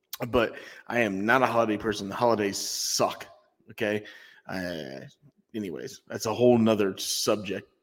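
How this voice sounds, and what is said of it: Strained, fading voice. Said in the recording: “I can tell I'm losing my voice, I feel like.”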